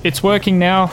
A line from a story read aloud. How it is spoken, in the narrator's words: he called out